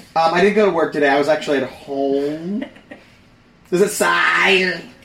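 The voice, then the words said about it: Slow, drawn-out words. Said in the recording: “Do I sound like a deaf person? ... No, you just draw out your words.”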